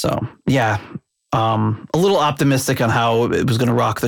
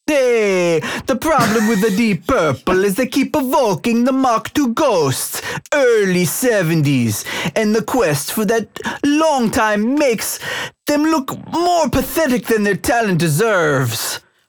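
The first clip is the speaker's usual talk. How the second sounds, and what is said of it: Put-on Italian accent. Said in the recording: “Should I should I do it in an Italian accent? ... back to your normal voice”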